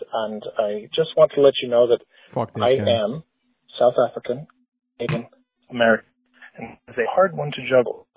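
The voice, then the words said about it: Imitates another person's voice, poor accent. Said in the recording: “He sounds like he's fucking Irish. He's still not fucking good at that accent.”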